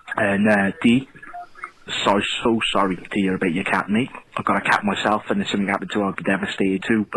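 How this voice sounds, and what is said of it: Strong Welsh Newport accent. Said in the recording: “I'm from a place called Newport, which is in South Wales ... I've got what you would say a very strong Newport accent ... It's a Wales accent, or a Welsh accent.”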